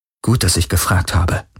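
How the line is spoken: Muttered. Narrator (German): murmelte Kirai

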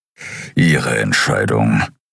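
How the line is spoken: Grumbling. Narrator (German): brummte Kero

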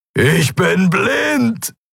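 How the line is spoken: Roaring. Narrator (German): brüllte er

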